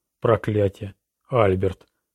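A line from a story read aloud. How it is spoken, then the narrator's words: Breathed out. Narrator (Russian): выдохнула Жизель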